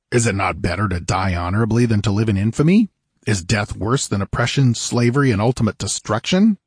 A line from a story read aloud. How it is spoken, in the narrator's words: said Conan harshly